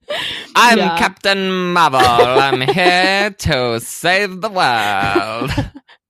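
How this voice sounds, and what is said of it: Weird accent imitating movie character. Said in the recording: “that's how she talks ... this weird accent”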